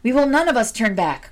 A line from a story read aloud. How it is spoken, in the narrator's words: cried his 49 brave companions